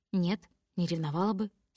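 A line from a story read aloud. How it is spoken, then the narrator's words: Calm tone. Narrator (Russian): спокойным тоном говорю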